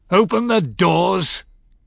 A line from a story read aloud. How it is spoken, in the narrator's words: he said angrily